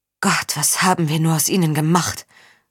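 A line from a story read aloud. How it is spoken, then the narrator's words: Murmuring. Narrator (German): murmelte Violante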